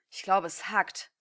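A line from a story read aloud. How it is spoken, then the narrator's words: Hissed. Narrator (German): zischte Daiki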